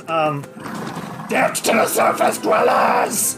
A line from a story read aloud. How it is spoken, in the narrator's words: The Zul'Gath here screams, and he says